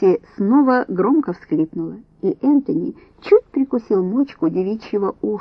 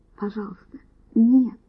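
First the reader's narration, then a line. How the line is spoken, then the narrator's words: Barely audible gasp. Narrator (Russian): еле слышно охнула Касси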